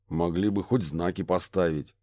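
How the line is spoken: Grumbling mutter. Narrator (Russian): пробурчал детектив

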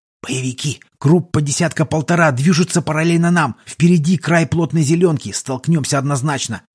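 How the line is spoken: Fast whisper over radio. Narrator (Russian): быстрым шепотом доложил Педро по рации

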